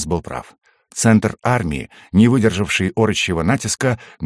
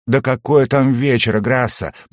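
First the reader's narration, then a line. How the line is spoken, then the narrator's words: Groaning dwarf. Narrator (Russian): простонал гном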